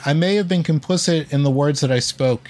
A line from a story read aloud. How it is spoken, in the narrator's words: said, adding